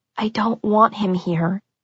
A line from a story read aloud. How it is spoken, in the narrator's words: I whispered to my mom